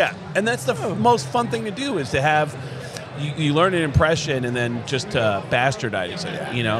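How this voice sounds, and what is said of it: Usual voice. Nothing is said of it.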